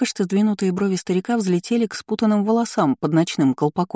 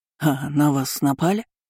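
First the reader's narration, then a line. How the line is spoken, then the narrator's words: Confused mutter. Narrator (Russian): растерянно пробормотал он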